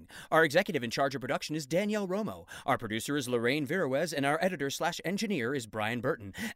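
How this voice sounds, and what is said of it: Announcer voice. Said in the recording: “that was my announcer voice”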